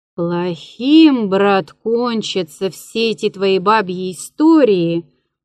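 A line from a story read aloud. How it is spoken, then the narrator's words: Sighing. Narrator (Russian): вздохнул я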